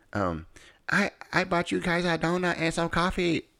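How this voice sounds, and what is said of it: Put-on Asian accent. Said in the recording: “That's my best Asian accent.”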